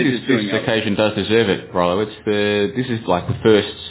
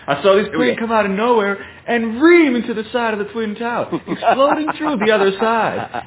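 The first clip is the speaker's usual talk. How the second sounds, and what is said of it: Imitates another person's voice. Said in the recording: “your impression, your impression ... the Harley guy”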